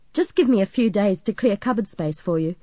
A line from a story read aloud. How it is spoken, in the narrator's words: Margaret laughed